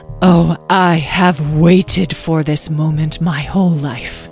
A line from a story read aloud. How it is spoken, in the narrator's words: she breathed almost to herself